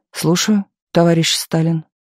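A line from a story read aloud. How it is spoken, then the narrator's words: Quiet. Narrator (Russian): тихо сказал Молотов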